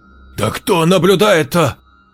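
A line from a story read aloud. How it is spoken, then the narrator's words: Nearly screamed. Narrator (Russian): Едва не заорала Паула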